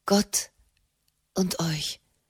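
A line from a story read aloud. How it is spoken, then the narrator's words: Shaken murmur. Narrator (German): murmelte Frau Raimund erschüttert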